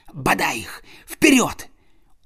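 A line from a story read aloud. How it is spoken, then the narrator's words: Whisper. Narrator (Russian): он прошептал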